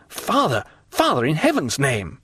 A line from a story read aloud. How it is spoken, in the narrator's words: exclaimed the young man